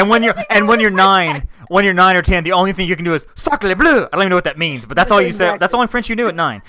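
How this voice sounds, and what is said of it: Usual voice. Nothing is said of it.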